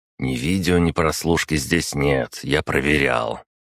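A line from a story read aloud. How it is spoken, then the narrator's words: Approving grunt, then speech. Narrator (Russian): одобрительно хмыкнув, произнес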